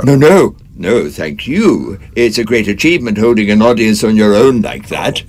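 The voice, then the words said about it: Scottish accent. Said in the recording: “I'm intrigued by your accent. Is it Paisley? ... Close. Next door, Greenock.”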